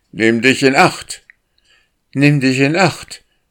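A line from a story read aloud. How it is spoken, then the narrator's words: Calling out. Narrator (German): rief er Windeile zu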